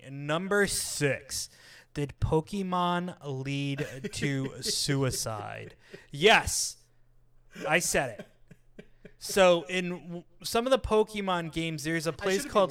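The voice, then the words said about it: Deliberately altered speaking voice. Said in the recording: “It's because of how I'm doing my voice. I know it is. It's like I'm changing my voice.”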